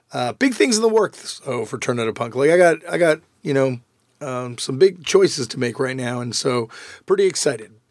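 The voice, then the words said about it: Slightly rough, worn voice. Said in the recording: “Sorry, my voice is a little messed up.”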